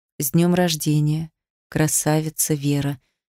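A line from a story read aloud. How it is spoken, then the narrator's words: Quiet speech. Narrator (Russian): сказал тихо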